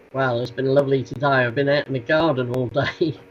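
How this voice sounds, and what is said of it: Norfolk English accent. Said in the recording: “my Norfolk dialect”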